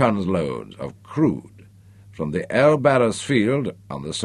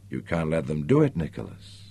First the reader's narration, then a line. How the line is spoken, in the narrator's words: she said quietly